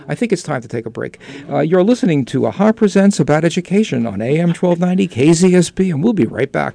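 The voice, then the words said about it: New York accent. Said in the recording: “My accent, my New York accent, goes so far.”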